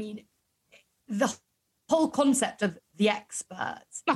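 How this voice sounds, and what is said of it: Usual voice. Nothing is said of it.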